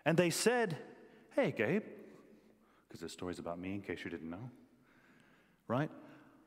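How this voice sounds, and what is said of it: American accent. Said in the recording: “in America, where I'm from, if you didn't pick that up from the accent”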